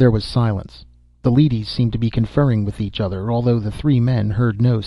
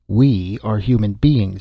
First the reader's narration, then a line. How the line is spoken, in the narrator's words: Frank said sharply